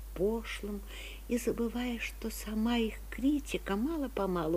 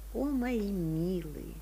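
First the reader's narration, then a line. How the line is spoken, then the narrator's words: Sad, warm whisper. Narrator (Russian): мне становится грустно, тепло, и я шепчу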